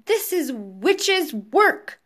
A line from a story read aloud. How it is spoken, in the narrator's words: cried Mr